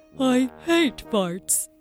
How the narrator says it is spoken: grumbled the troll

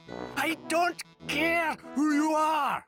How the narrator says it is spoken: shouted the troll

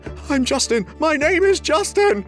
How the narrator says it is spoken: he whimpered

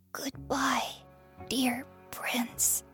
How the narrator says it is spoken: whispers

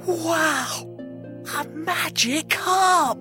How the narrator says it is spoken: whispered Jack

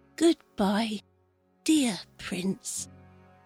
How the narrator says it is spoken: he whispers

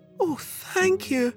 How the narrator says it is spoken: cried Sophie

